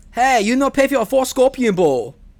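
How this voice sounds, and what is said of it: Exaggerated bad Chinese accent, imitating Rob Schneider. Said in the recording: “Rob Schneider ... He's doing this next-level bad Chinese accent.”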